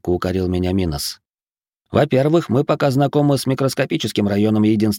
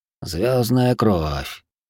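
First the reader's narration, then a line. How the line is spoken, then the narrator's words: Thoughtful remark. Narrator (Russian): задумчиво проронил восходящий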